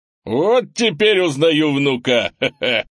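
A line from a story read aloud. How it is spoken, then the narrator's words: Short laugh. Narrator (Russian): хохотнул Крис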